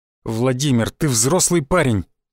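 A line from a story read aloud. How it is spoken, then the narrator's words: Irritated. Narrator (Russian): раздраженно произнес Шишаков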